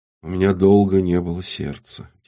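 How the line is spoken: Quiet. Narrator (Russian): тихо ответила Горгона

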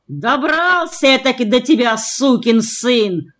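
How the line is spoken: Full-volume yelling. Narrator (Russian): орал он во всю мощь

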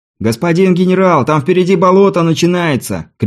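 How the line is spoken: Scout shouting. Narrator (Russian): крикнул кто-то из разведчиков

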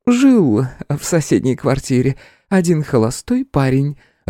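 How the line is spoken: Elderly woman laughing. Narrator (Russian): рассмеялась пожилая акушерка

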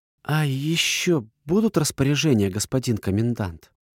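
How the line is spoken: Timid question. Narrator (Russian): робко уточнила Жоржина

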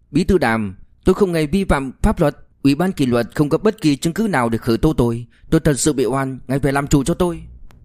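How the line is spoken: Loud. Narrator (Vietnamese): lớn tiếng nói

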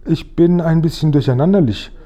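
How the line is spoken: Plain. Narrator (German): sagte er

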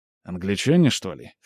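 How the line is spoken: Scoffing grunt. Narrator (Russian): хмыкнул Скип

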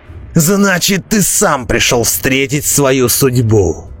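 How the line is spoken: Ecstatic roar. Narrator (Russian): восторженно взревел Роди

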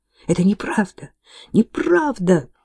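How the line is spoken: Muffled exclamation into apron. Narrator (Russian): воскликнула Кейт, зарываясь лицом в фартук на просторной груди Агнес

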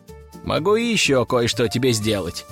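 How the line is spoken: Even tone. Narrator (Russian): продолжил я тем же ровным тоном

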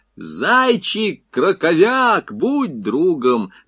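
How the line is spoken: Shouting. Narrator (Russian): закричал Чернышов

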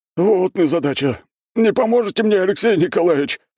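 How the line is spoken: Helpless groan. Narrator (Russian): простонал он, беспомощно болтаясь

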